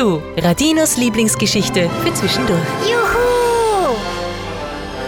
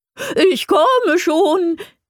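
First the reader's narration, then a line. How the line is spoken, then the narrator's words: Joyful call. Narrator (German): rief eine freudige Stimme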